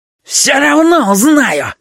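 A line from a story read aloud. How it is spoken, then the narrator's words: Sudden shrill scream. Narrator (Russian): вдруг визгливо закричал Петя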